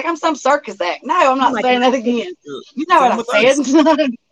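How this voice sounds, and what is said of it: Regional accent. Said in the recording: “I love your accent, and I could listen to you talk all day”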